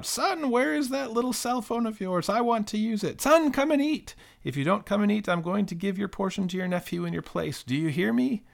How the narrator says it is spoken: So this granddaughter called out

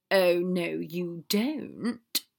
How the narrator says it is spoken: Neville drawled

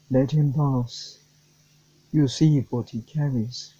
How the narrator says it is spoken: the wraiths drew aside, murmuring

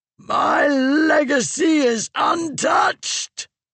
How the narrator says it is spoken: the pursuer roared

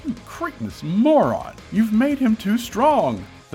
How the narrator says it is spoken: the mayor cried

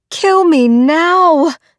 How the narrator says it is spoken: the mother wailed at the ceiling

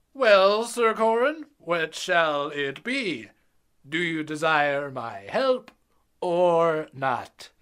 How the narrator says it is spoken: she says calmly

